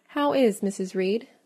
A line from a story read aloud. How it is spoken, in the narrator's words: I asked soon, looking calmly